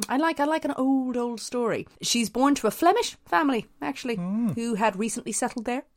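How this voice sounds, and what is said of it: Northern Irish accent. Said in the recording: “the accent's probably going to come out in this quite a bit... this is the south of Ireland. I'm from the north. The accent's going to be weird.”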